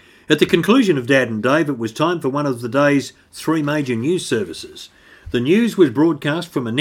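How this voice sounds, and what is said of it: Usual voice. Nothing is said of it.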